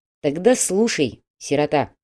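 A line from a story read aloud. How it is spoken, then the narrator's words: Stern. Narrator (Russian): строго сказал менеджер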